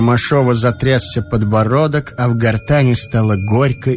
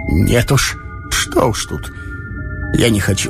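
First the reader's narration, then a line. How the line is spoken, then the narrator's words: Choked, near sobbing, childlike. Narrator (Russian): Едва удерживаясь от рыданий, он ответил обрывающимся, задушенным голосом обиженного ребенка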